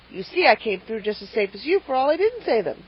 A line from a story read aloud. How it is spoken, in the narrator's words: he added triumphantly